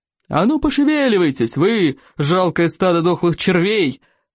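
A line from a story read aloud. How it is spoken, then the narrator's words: Yelled at dragons. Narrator (Russian): орал Плевака на саблезубых драконов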